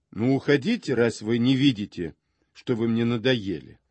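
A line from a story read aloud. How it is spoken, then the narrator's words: Angry, dismissive. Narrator (Russian): произнесла это таким сердитым тоном, как если бы хотела прогнать меня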